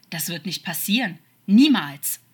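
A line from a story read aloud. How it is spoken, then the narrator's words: Angry, ending in snakelike hiss. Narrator (German): sagte noch immer wütend, und man könnte meinen, einen zischenden Laut am Ende zu hören, wie es bei einer Schlange der Fall war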